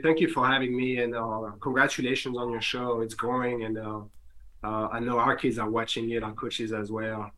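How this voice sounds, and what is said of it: French accent, slightly sick voice. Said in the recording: “I apologize for being a little sick... I already have an accent... as somebody who actually speaks French”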